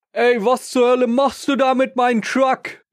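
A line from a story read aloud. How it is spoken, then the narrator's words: Husband storming out, shouting. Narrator (German): kam der Ehemann aus der Haustür gestürmt und schrie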